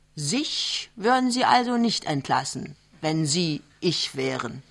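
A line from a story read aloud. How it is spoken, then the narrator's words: Plain. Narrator (German): fragt er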